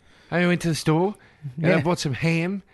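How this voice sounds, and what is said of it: Mock Australian accent, rising intonation. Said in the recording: “That stupid Aussie accent. ... Everything sounds like a question. ... It always goes up at the end.”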